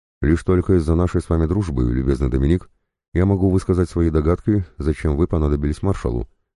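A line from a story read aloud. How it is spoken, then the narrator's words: Plain. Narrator (Russian): сказал Гийом Лаваль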